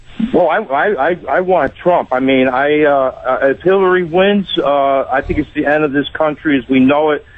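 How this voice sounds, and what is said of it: Chicago-like drawl accent. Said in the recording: “I hear in your accent, tell me if I'm wrong, are you Chicago or Philly? ... you guys in Syracuse have a bit of a Chicago drawl”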